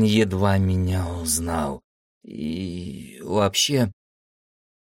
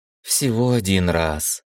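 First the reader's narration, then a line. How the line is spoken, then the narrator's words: Girl's sigh, near tears. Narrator (Russian): вздохнула девочка, и ее глаза предательски налились влагой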